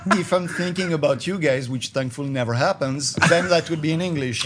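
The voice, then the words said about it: English with a French accent. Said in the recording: “With that accent. ... with a French accent”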